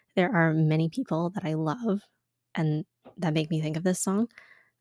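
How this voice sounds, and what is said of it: Tearful, shaky, emotional voice. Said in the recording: “My voice is going to get all messed up here ... I can't get through this song without crying”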